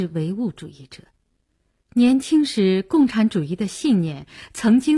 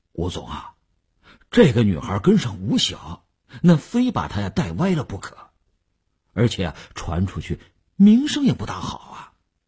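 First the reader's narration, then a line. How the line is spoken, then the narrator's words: Hesitant, reluctant. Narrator (Chinese): 李大公欲言又止……才说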